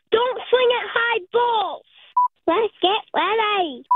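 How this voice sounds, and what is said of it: Child imitating their mother's voice. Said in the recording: “This is my impression of my mom.”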